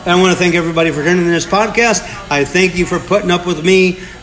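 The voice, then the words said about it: Nasal Midwestern twang accent. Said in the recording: “I'm the slug from Southern Illinois with a nasally accent, with a Southern Illinois accent, Midwestern twang. ... I dropped my G's.”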